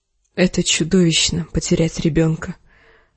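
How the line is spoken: Whisper, mostly to herself. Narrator (Russian): прошептала больше себе, чем отцу

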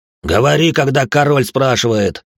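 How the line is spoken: Barking. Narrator (Russian): рявкнул Коракс

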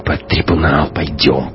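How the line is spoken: Hissed. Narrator (Russian): прошипел Шибанов

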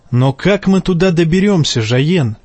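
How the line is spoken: Plain. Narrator (Russian): спросила его сестра

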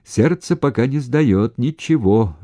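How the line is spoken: Cheerful steady shout. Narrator (Russian): весело, без одышки крикнул он Сенцову

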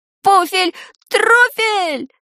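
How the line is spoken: Stunned yell. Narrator (Russian): завопил ошеломленный Шурасик

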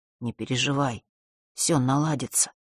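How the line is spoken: Whisper. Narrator (Russian): прошептал он

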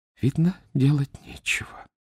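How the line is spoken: Quiet, to herself. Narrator (Russian): сказала тихо, словно себе самой

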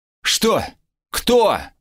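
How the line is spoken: Yell. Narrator (Russian): заорал я

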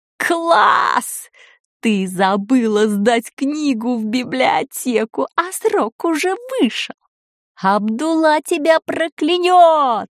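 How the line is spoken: Yelling. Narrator (Russian): завопила

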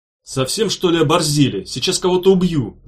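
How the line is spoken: Yelling. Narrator (Russian): завопил Меф

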